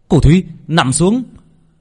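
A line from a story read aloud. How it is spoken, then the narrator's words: Frightened shout. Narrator (Vietnamese): Việt sợ hãi, hét lên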